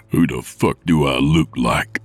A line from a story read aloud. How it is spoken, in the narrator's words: Nick growled